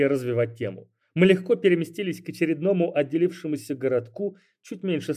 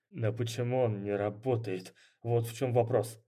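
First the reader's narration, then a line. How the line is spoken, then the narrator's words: Through gritted teeth. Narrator (Russian): процедил я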